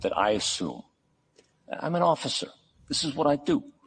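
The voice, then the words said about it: Put-on New York accent. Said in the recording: “impersonating a Kansas police officer with a New York accent.”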